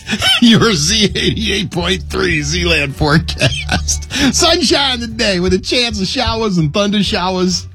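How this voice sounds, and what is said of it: Philadelphia accent slipping out. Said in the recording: “my Philly accent's coming out. ... It slips out sometimes”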